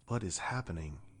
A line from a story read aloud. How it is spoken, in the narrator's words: Isra whispered